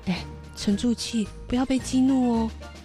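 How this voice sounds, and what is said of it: Speaking quietly. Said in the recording (Chinese): “小声的说”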